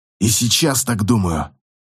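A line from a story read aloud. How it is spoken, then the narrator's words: Hoarse rasp. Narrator (Russian): прохрипел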